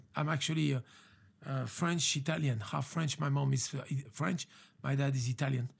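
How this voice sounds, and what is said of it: French accent. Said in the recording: “you are not born in America by the accent that we all hear ... I got this accent, French accent.”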